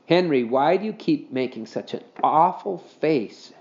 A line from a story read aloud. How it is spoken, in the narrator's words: she asked